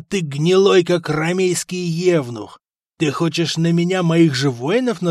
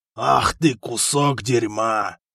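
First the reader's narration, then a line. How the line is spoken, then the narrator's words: Growling. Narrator (Russian): прорычал хан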